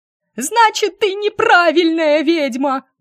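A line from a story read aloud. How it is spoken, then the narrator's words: Shrill squeal from darkness. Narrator (Russian): взвизгнула из темноты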